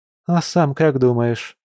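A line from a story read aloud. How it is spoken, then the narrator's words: Sighing. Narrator (Russian): вздохнула Маша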